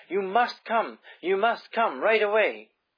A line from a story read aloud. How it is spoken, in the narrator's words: panted